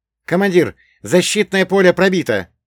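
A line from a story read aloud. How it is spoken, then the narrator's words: Alarmed operator exclaiming. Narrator (Russian): воскликнул оператор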